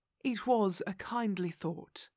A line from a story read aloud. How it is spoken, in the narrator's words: said our companion earnestly